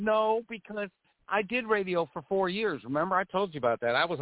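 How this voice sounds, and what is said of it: Usual voice. Nothing is said of it.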